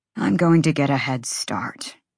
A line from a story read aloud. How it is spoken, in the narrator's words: he murmured